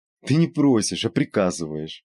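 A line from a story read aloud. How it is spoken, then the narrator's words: Laughing. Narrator (Russian): засмеялась Евгения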